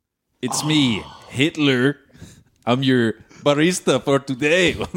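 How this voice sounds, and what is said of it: Middle Eastern-sounding put-on accent. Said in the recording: “This accent is very Middle Eastern and not German at all”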